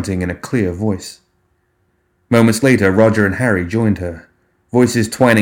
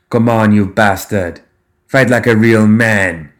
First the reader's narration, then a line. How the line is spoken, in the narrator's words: she shouted